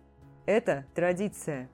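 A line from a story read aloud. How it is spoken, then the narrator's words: Forced calm. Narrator (Russian): Дэриан старался говорить спокойно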